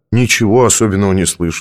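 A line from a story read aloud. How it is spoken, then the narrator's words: Plain. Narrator (Russian): сказал я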